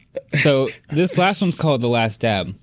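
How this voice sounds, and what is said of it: Imitates another person's voice. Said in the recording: “great Sean Evans impression”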